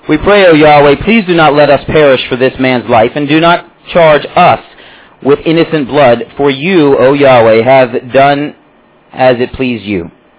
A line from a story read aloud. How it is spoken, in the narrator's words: they cried out to Yahweh and said